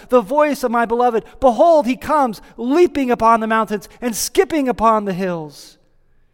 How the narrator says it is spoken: we hear her exclaiming

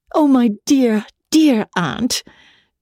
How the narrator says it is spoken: she rapturously cried

